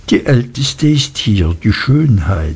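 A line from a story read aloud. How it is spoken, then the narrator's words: Quiet, confidential. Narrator (German): sagte Traddles leise und vertraulich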